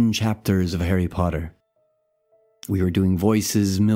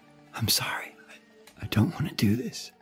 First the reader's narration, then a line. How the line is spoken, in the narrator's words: Elizabeth whispered in the dark